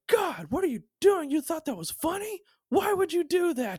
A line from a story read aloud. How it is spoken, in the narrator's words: yelling